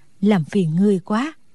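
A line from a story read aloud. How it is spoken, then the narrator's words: Relieved, smiling speech. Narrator (Vietnamese): thở phào một cái nhẹ nhõm, rồi đứng lên mỉm cười nói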